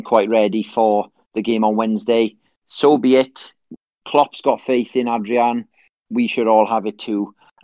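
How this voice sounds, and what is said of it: Welsh accent. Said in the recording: “my accent ... some sort of Welsh accent”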